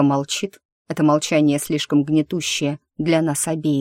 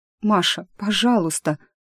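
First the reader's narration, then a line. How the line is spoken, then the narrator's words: Bitter sobbing. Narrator (Russian): она горько всхлипывает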